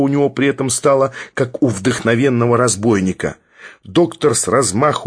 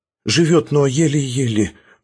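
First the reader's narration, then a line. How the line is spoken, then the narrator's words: Timid whisper. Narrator (Russian): робко прошептал он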